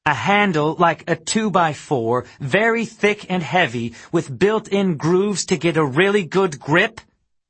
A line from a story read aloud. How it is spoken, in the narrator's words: snapped